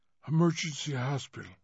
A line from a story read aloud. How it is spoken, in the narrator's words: a terrible whisper